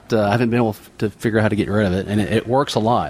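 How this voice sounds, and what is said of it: Southern US accent. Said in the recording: “that's why you have to have the accent ... I was born with it ... the Southern accent”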